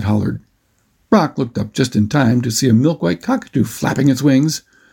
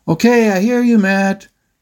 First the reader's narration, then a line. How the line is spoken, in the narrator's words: Brock yelled out over the motor's loud whine